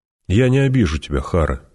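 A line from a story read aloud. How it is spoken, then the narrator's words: Gentle. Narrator (Russian): мягко сказал он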